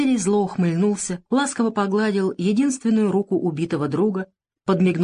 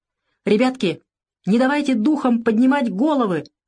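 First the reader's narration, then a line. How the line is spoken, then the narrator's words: Shouted. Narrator (Russian): крикнул Варламов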